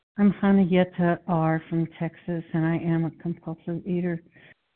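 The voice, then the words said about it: Slightly out of breath. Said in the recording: “I'm just a little out of breath.”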